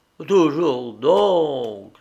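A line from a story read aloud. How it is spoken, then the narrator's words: Sad muttering to himself. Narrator (French): se dit tristement le pauvre diable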